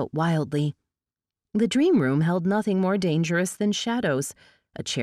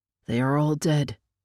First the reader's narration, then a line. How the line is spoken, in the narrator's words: murmured